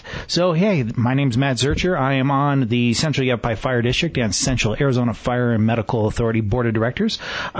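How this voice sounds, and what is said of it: Exaggerated radio announcer voice. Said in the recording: “get my radio voice going and so forth. And I make people crack up over it”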